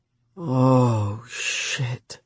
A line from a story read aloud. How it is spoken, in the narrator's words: she moaned